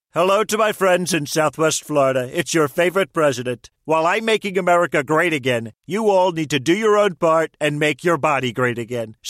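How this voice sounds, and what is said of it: Celebrity voice impersonation. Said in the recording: “Celebrity voice impersonation.”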